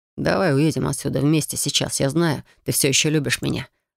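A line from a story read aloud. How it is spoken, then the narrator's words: Mumbling. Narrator (Russian): бормочет Максим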